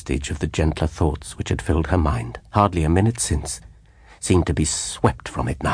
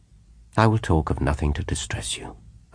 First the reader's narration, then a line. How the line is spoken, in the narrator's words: I said soothingly